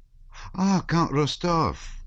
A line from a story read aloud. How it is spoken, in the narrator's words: exclaimed Pierre joyfully